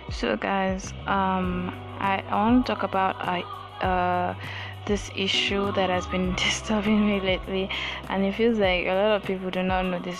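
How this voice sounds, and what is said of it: Congested voice from a cold. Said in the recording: “sorry, I have a cold,”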